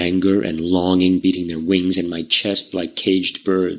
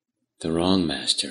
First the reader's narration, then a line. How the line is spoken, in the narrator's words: I said quietly